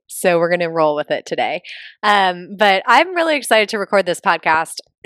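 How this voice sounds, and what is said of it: Deeper, phlegmy post-illness voice. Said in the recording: “I feel like my voice is a little bit deeper because I think I just got over the big C, the big COVID ... there's still like lingering phlegm in my throat, but it makes my voice sound like sexy”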